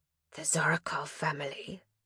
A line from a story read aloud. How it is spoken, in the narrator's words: the monster had whispered